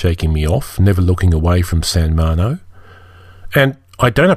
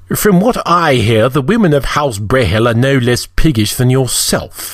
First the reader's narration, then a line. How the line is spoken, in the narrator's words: he sneered